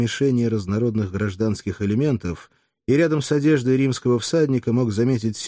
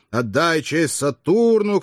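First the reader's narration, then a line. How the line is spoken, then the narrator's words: Shouting. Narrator (Russian): кричал другой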